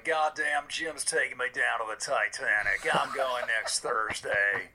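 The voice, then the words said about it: Imitates another person's voice. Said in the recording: “Good Bill impersonation.”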